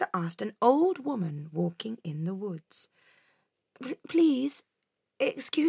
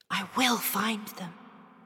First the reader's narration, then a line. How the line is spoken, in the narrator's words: she whispered to her reflection